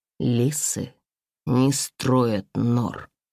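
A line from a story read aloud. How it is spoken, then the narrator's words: Ominous, through gritted teeth. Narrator (Russian): зловеще процедила я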